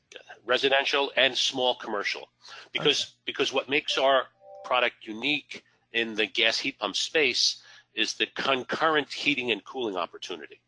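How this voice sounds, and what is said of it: American accent. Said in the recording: “your accent gives away that you're not in Europe, you're US based”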